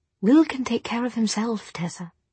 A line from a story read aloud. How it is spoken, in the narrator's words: he repeated gently